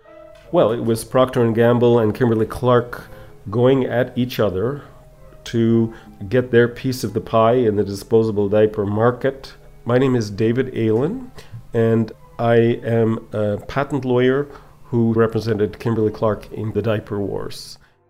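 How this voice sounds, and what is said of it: Canadian Ottawa accent. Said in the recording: “that Ottawa accent”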